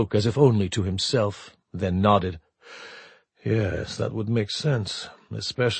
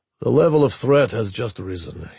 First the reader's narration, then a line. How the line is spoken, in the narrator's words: he said flatly